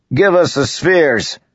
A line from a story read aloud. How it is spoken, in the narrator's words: a voice called out of the darkness